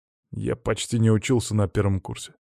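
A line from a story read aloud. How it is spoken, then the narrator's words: Grumbled. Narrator (Russian): буркнул он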